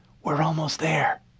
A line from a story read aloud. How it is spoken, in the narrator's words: she whispered